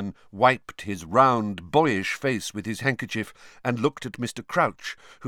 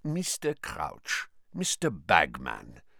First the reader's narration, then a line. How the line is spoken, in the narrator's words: said Karkaroff, his voice unctuous once more